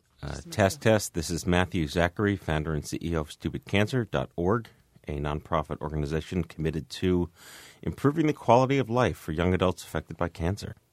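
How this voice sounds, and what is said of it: Polished NPR-style radio announcer voice. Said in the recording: “That's my NPR voice.”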